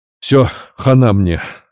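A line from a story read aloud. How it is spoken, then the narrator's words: Orderly's doomed groan. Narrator (Russian): обреченно простонал санитар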